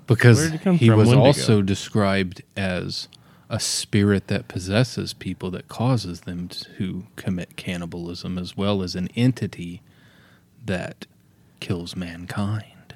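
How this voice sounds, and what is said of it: Spooky, ominous storytelling voice. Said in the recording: “I'm using my real scary voice.”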